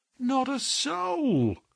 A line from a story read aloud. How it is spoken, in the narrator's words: groaned Hall Pycroft